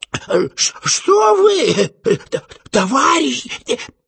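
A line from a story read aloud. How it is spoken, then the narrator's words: Dazed frantic whisper. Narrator (Russian): прошептал совершенно ополоумевший администратор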